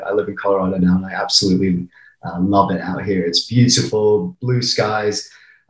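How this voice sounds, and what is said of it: English accent with American R. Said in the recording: “I sound completely English apart from the letter R, which is the only American part of me left.”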